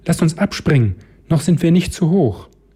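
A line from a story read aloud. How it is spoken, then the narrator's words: Called out. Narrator (German): Rebecca rief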